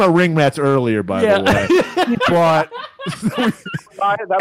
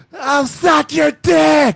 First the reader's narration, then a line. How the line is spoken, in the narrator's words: this chick just screams out